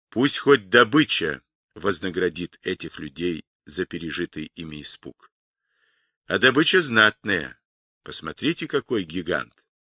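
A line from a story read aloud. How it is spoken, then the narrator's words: Captain's low voice. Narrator (Russian): капитан вполголоса сказал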